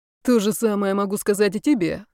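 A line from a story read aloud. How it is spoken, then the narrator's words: Grumbling. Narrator (Russian): проворчал Зарецкий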